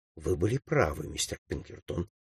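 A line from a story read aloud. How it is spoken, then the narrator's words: Quiet. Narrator (Russian): тихо сказала она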